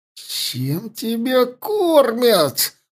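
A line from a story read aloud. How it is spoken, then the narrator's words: Groan through teeth. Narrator (Russian): простонал человек сквозь зубы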